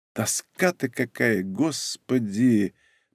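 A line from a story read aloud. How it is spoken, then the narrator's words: Moaning. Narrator (Russian): простонала Ольга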